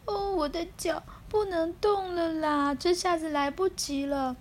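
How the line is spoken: Wailing sobs. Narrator (Chinese): 放声大哭起来

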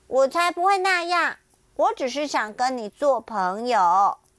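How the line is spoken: Loud. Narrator (Chinese): 巴蒂大声的说

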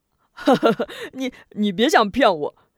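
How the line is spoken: Laughing foolishly. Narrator (Chinese): 龙彪……突然咧开大嘴傻笑起来

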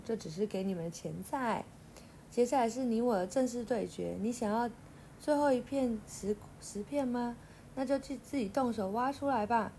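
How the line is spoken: Confident, smiling. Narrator (Chinese): 岭露出自信的笑容说

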